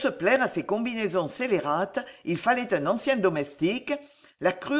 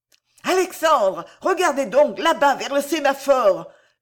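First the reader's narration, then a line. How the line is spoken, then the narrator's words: Shouted from afar. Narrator (French): lui criait Lydie du rez-de-chaussée de la maison jaune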